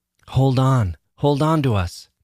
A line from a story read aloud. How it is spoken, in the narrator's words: they shouted at me